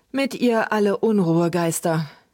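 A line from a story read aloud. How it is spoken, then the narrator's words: Hesitant, uneasy repetition. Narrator (German): wiederholten Luke und Trug etwas zögernd, denn der Spuk dieser Kerlchen war ihnen nicht besonders geheuer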